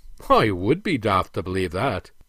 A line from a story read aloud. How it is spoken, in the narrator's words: chuckled the prince